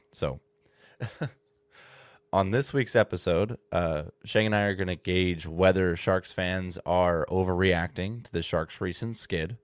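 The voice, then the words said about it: Congested voice with occasional cracks. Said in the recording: “I'm still recovering from the chest congested sinus infection filled nonsense ... if you hear me do a voice crack ... It's just the phlegm.”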